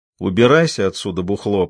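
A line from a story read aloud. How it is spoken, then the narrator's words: Through gritted teeth. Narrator (Russian): процедил Фредди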